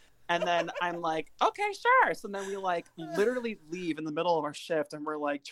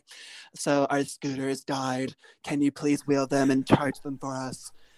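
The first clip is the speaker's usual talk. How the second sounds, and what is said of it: Impression resembling Alaska 5000's voice. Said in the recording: “in her voice ... your impression of Margaret Atwood sounds a lot like Alaska 5000”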